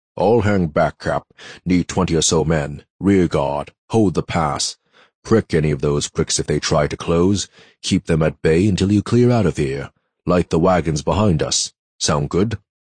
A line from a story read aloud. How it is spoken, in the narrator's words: Rumbling as usual, as Morgan said